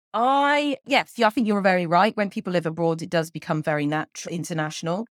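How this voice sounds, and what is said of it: Southeastern English accent, somewhat international. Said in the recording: “You, you have neither a Welsh nor a Bristol accent ... it's a kind of a southeastern accent, as, as I'm detecting it ... it becomes more international”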